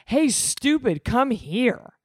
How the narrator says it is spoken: His head hurt, but he shouted

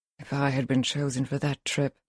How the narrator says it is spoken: she mutters

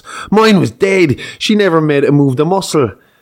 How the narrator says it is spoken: The second drunk shouts

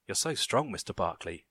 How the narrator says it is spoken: she whispered

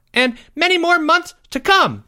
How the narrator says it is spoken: shouted Jeffrey

